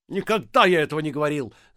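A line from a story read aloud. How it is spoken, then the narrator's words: Shouted. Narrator (Russian): закричал Трубецкой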